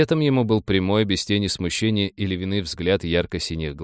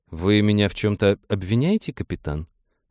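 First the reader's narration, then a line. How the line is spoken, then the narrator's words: Calm question. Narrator (Russian): спокойно спросила Демина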